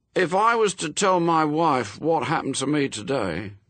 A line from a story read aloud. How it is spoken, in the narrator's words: he told them, a little sadly